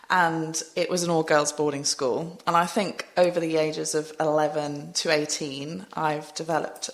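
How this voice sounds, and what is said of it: Strong English accent. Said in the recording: “I've got quite a strong English accent”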